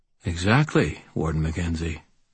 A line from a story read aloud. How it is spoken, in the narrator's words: I said quietly